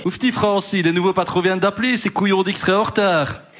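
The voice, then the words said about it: Put-on Liège Belgian accent. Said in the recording (French): “C'est quoi cet accent de Liège? ... je ne sais pas faire l'accent liégeois”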